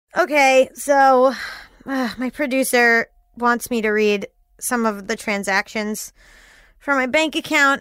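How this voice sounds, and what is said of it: Sarcastic, unenthusiastic tone. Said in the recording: “As you can tell from my voice, I'm thrilled about it.”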